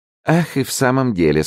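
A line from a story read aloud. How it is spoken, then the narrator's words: Laughing. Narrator (Russian): сказала, смеясь, Генриетта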